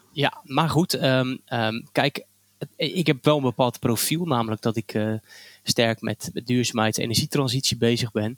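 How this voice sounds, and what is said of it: Light regional Dutch accent. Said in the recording (Dutch): “je hebt een licht accent... ik spreek soort dialect.”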